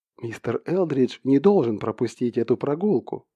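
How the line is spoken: Whisper. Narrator (Russian): прошептала она

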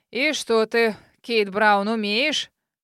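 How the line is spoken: Demanding old man. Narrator (Russian): Требовательно спросил дед

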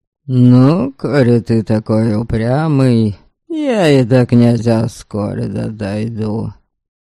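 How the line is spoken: Gloomy curt remark. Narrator (Russian): мрачно бросил

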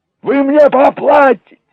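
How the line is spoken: Howled. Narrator (Russian): взвыл Джек

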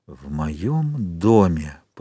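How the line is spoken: Whispering. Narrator (Russian): прошептал

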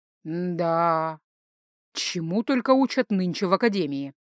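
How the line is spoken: Grumbling. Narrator (Russian): проворчал Инор Брайнер

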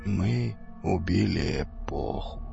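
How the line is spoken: Slow sad after pause. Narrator (Russian): медленно и печально произнес Саид после долгой паузы

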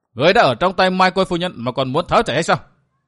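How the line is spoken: Loud angry shout. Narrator (Vietnamese): Mụ thấy Tư Mã Tiếu Dư bỏ chạy liền lớn tiếng quát

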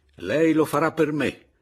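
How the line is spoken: Energetic shout. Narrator (Italian): gli gridai energicamente

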